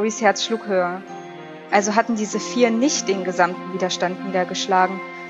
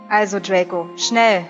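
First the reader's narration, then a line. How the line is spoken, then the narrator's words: Angry. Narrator (German): sagte der Mann mit dem brutalen Gesicht wütend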